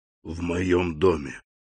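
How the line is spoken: Whisper. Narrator (Russian): прошептал он

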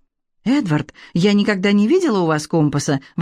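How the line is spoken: Exclaiming. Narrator (Russian): воскликнула она

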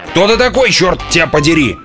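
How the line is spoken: Yelled. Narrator (Russian): заорал он

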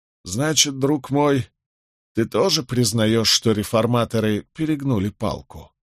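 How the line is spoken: Quiet inquiry. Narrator (Russian): вполголоса осведомился Гай

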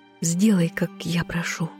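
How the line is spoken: Quiet whisper. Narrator (Russian): тихо прошептала

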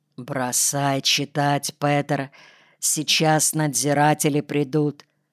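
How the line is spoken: Quiet. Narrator (Russian): тихо говорит

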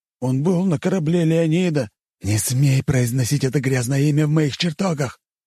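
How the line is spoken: Growling king. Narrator (Russian): прорычал царь Ксерокс

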